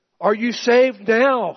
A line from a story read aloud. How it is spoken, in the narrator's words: he cried out